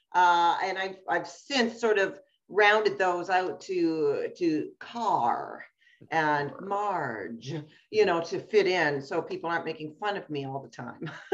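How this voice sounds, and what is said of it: Nova Scotian East Coast accent. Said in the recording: “when you hear her accent, if you think I got one, you want to listen to where she's from ... people used to make fun of me all the time when I moved from Nova Scotia, the East Coast ... because of the hard R's”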